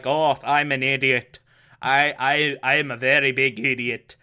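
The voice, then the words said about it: Failed Irish accent, sounds Scottish. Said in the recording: “this is not an Irish accent. I don't know what this is. Oh, this is foreign. This is a foreign accent ... it's sounding more Scottish than Irish ... now it's not even entirely Scottish, it's just something else”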